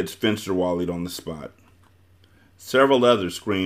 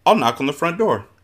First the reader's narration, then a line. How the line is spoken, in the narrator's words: Maniac announced brightly